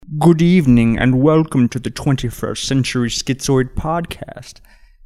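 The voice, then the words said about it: Imitates another person's voice. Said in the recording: “my best Hitchcock impersonation”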